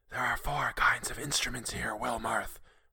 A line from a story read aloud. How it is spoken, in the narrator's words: whispered the voice